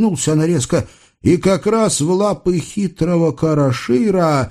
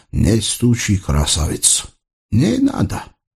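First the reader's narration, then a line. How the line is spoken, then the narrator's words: Quiet, soft foreign accent. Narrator (Russian): знакомый голос с акцентом мягким басурманским тихо произнес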